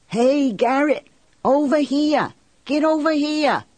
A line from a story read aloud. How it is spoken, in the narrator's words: Sonny Benoit scream